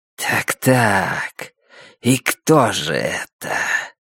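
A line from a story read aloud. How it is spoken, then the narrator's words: Low whistling voice. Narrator (Russian): Существо говорило по-альтански, низким свистящим голосом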